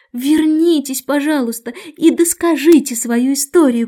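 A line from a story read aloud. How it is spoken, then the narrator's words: Shouting. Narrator (Russian): крикнула Алиса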